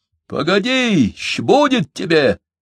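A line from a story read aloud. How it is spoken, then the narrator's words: Shouting. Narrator (Russian): кричал Алексей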